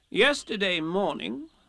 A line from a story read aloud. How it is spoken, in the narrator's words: said Rabbit solemnly